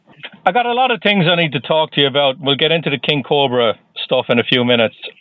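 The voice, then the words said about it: Irish accent. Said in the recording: “I detect the Irish accent.”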